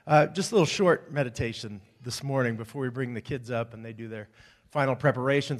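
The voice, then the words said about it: Hoarse, strained voice. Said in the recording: “Lost my voice this morning during rehearsal. ... somehow I lost my voice ... must have been screaming over my own loudness”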